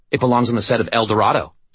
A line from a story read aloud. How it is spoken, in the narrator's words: she snapped